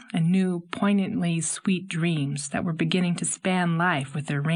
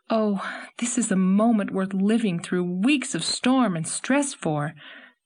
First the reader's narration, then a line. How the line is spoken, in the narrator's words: Anne exclaimed, delightedly